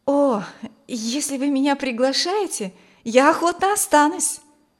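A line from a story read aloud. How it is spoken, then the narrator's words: Exclaimed. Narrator (Russian): воскликнула Маргита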